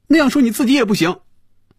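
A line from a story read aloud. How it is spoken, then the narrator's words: Loud. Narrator (Chinese): 菲比大声说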